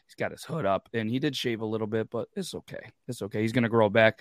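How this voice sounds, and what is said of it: Low, raspy, worn voice. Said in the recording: “My voice is beat up ... a low voice, raspy”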